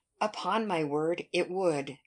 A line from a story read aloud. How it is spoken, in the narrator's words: replied Mary